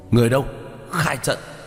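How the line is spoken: Shout through gritted teeth. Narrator (Vietnamese): Tướng lĩnh nghiến răng hét lên một tiếng

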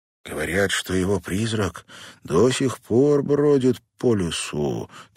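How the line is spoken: Solemn. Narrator (Russian): торжественно произнес Дэнни

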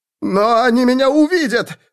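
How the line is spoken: Pleading. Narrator (Russian): Взмолился человек

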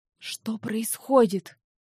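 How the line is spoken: Hoarse question. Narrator (Russian): хрипло спросил Винс

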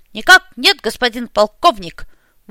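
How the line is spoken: Crisp, dashing military reply. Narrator (Russian): лихо, как и было принято в их полку, отчеканил Сергей

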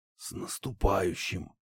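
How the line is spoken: Father's barely audible voice. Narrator (Russian): едва слышно произнес отец

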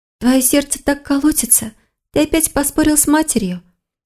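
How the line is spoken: Soft, tender young woman. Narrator (Russian): тихо спросила девушка, с нежностью

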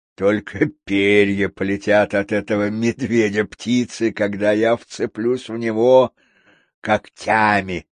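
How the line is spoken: Boasting. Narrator (Russian): хвастался он

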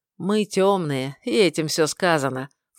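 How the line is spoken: Snort. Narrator (Russian): фыркнул

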